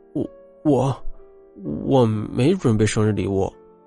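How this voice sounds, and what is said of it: Quiet, stammering voice. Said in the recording (Chinese): “小声的说”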